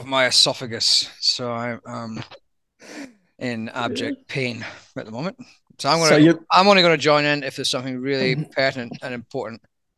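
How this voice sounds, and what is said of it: Scottish accent, husky gravelly voice. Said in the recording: “Scottish accent ... the more husky, gravelly voice”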